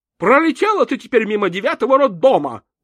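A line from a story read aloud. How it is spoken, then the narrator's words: Gloating shout. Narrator (Russian): злорадно крикнула Страшкевич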